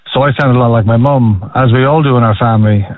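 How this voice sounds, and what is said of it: Neutral, posh-sounding Irish accent. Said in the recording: “my sort of neutral accent ... us being posh or snobby or being labelled English and not true Irish people”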